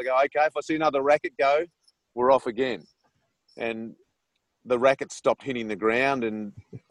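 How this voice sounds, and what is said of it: Australian accent. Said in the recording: “none of the kids really understood my accent. ... I was using words like fair dinkum”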